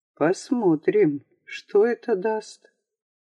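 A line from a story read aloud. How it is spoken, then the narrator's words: Muffled voice. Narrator (Russian): Приглушенным голосом Ликер произнес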